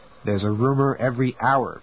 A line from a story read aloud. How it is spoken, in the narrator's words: Preston said